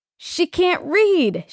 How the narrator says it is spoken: exclaimed

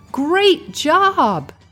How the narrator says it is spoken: shouted

